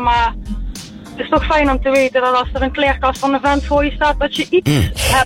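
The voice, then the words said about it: Southern Dutch regional accent. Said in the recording (Dutch): “ik bespeurde al een accent, dus daar in het zuiden”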